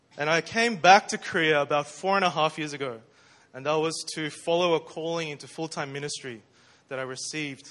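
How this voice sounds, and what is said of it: Australian English accent. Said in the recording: “I grew up in Melbourne, Australia. ... I'm an Aussie, as you can tell from my accent.”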